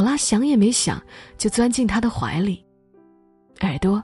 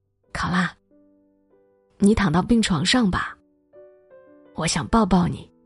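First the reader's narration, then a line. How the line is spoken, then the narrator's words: Softly. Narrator (Chinese): C 先生轻声说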